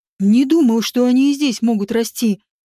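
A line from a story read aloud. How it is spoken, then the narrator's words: Plain. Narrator (Russian): сказал он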